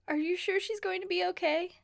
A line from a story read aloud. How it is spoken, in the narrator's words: She sobs and asks